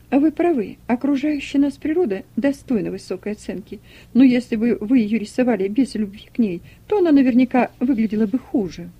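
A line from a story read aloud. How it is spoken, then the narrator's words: Laughing guest. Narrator (Russian): Гостья засмеялась, сказала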